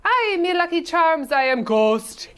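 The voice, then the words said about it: Exaggerated bad Irish accent. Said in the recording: “an Irish Christopher Walken ... everyone's accents, but his was truly the worst”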